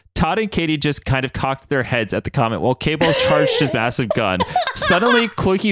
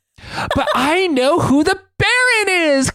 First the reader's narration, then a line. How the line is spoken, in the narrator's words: Cloaky yelled